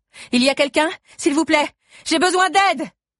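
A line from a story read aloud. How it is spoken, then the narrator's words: Shouting. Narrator (French): hurlai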